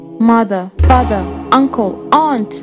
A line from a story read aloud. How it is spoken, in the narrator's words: cried